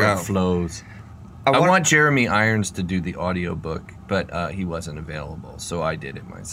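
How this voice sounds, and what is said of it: Usual voice. Nothing is said of it.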